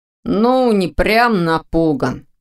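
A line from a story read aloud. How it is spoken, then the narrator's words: Grumbling. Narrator (Russian): проворчал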